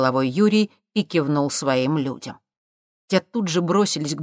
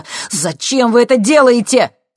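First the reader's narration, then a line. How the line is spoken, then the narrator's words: Shouting. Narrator (Russian): закричал Максим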